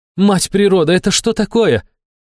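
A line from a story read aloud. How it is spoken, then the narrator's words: Stunned exclamation. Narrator (Russian): ошарашенно воскликнула Милена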